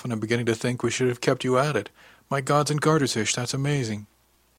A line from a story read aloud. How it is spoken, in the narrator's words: said with a little laugh